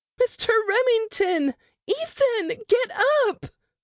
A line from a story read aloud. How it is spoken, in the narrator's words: pleaded